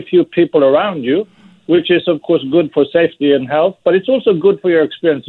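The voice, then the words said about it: Swedish accent. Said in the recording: “delicious Swedish accent”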